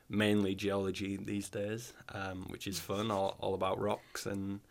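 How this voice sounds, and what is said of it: Fairly strong northern English accent. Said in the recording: “I guess I do have a fairly strong accent, but I don't think it's the strongest”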